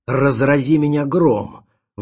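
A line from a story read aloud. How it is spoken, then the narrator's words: Sudden exclamation. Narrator (Russian): вдруг воскликнул эксперт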